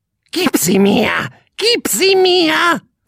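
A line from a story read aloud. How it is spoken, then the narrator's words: Bird's croak. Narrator (German): krächzte der Vogel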